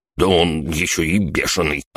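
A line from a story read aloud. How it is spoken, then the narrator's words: Offended mutter. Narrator (Russian): обиженно пробормотала панда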